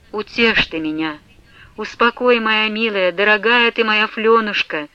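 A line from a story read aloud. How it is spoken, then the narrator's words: Pleading voice. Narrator (Russian): Молящим голосом говорила Манефа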